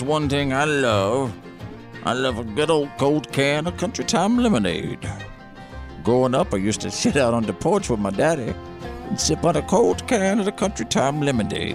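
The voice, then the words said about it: Hokey folksy character voice. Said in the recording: “that hokey voice you're doing ... Pretty good character voice”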